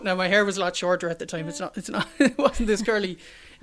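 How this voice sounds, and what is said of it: Irish accent. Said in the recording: “heard the Irish accent”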